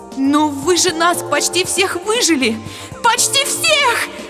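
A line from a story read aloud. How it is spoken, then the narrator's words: Shrieking aloud. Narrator (Russian): Завизжала я вслух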